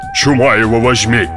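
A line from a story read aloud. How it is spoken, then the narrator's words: Grumbling. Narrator (Russian): проворчал Тагабар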